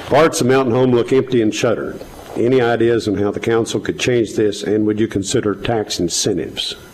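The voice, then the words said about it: Southern American accent. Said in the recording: “That's my southern. I'm using my southern accent there.”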